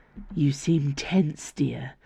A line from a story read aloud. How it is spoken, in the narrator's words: murmured Valeria